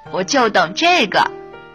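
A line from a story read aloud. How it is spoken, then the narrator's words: Mischievous, sly grin. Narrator (Chinese): 我坏笑着说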